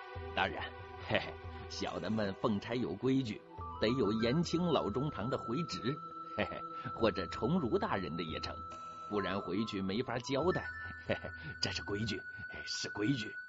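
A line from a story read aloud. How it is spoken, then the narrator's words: Ingratiating, smiling. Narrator (Chinese): 莫继父也陪着笑说了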